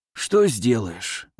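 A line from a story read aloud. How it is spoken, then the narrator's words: Sighing. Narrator (Russian): вздохнул Иван Тихонович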